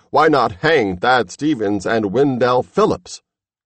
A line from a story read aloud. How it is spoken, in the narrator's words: Someone cried